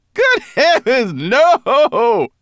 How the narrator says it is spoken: Berber Chan laughed so heartily

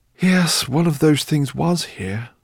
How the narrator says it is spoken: sighed Professor Greenbloom

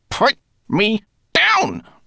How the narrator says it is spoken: snarled Rat

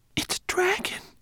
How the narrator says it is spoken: he whispered

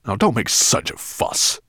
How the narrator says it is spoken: growled Nettlebrand

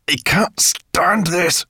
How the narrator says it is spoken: growled Sorrel

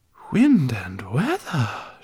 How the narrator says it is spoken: she whispered

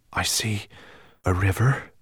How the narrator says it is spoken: he whispered so quietly that Firedrake had to prick up his ears to hear him

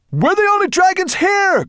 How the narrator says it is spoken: cried Maya

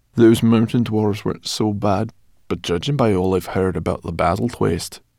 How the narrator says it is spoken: she shook her head gloomily

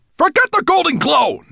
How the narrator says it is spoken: Nettlebrand snapped

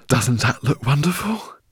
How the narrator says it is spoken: cried the professor

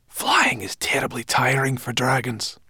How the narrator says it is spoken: Sorrel whispered to Ben

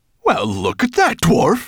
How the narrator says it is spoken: laughed until he shook all over

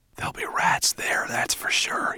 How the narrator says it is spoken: he whispered

